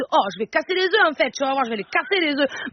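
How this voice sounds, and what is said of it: Put-on southern French accent. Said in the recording (French): “Allez, maintenant, l'accent du sud.”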